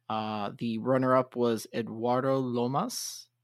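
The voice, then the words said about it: Good accent on a name. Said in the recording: “He had a little bit of a good accent there with the Eduardo.”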